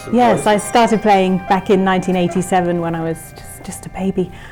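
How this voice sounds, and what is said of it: British accent. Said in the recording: “has a British accent”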